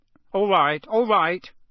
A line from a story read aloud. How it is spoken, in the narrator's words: said Uncle Vernon loudly